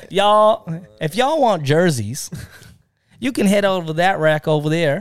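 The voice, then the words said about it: Put-on Southern US accent. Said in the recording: “the girl goes with her southern accent. I'm going to butcher it. ... That's better.”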